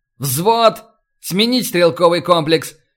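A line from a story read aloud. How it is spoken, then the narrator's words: Barked command. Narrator (Russian): рявкнул Старгородский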